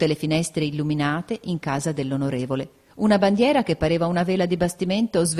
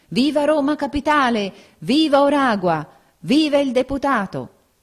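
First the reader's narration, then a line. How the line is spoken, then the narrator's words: Crowd shouting. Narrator (Italian): gridavano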